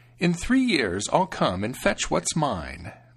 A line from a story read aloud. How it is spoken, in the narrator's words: the stranger said with a snide laugh